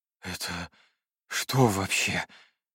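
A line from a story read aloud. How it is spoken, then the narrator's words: Suddenly hoarse question. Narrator (Russian): внезапно охрипшим голосом спросил я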